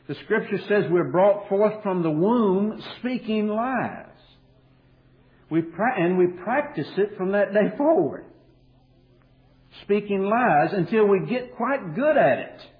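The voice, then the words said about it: Kentucky accent. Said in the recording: “the Kentucky accent will leave my voice. Maybe. It's doubtful.”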